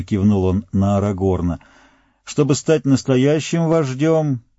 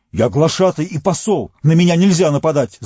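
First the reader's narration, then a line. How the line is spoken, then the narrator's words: Shouting. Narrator (Russian): закричал он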